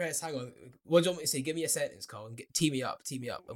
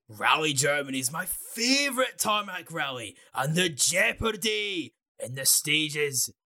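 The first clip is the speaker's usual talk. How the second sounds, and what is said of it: Imitates another person's voice. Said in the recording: “he does an impression ... Do an impression ... A poor impression”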